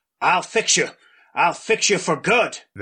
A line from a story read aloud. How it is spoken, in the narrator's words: Grandpa Ezra's hand gripping it fiercely, saying